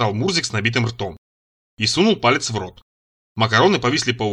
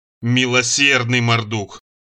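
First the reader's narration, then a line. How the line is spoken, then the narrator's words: Moaning. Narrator (Russian): простонал я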